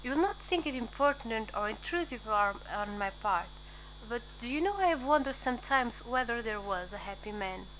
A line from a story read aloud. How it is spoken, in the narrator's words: Nurse laughed